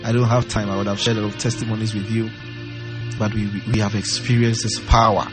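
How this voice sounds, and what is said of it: Strained, worn-down voice. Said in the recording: “my voice is a little down ... my voice may be down”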